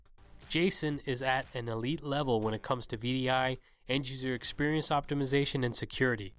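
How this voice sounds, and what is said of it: Sick, slightly off voice. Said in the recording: “my voice is a little bit off. I am sick again.”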